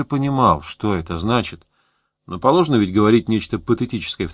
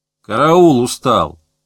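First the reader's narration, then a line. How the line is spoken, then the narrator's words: Crowd barking. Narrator (Russian): рявкнули из толпы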